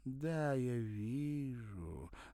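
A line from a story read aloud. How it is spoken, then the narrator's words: Singsong chanting. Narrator (Russian): заговорила она нараспев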